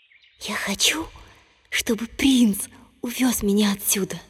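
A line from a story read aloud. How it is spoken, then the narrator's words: Whispered into well. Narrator (Russian): Наклонившись к колодцу, принцесса прошептала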